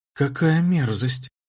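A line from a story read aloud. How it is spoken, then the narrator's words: Quiet. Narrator (Russian): тихо сказала Вайра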